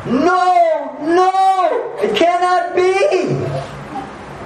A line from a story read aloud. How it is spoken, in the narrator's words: he started shouting